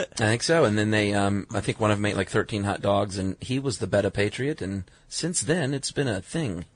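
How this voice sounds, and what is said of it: Old-time Coney Island New York accent. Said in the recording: “Can I stop doing that accent now? ... It sounds very Coney Island, Chuck. ... Very Coney Island 1916. ... nailed it.”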